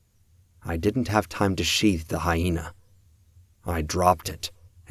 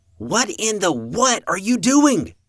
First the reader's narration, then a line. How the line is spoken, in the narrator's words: Evan shouted